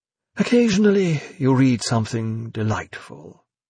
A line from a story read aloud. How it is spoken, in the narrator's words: said wistfully